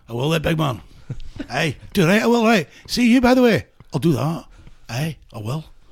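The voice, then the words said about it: Put-on Glasgow accent. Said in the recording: “What part of Glasgow is that accent from?”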